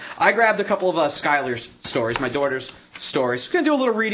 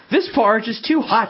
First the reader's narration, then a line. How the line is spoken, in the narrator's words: she exclaimed